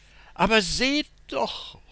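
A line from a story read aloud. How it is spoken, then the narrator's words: Calling out. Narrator (German): ruft sie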